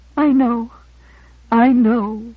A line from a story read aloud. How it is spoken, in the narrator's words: she said brokenly